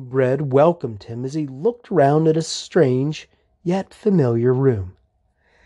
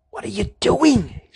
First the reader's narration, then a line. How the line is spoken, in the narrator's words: She hissed